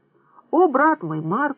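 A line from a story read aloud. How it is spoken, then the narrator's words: Exclaiming. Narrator (Russian): воскликнула она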